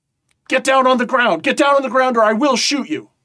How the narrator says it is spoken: he yells at you

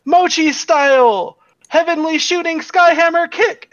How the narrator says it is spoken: she yells

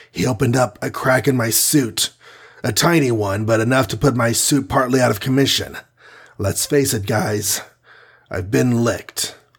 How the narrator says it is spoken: Iron Man gasped

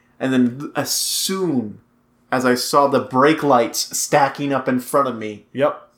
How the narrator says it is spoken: I snapped

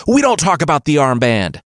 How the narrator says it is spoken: Thorstein shrieked

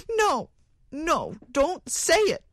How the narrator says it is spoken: cried the woman wildly

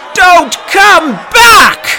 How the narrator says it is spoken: it screamed

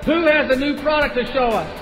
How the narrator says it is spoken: the executive over sporting goods screamed

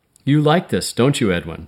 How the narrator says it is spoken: she said

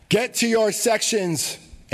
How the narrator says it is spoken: Angela screams

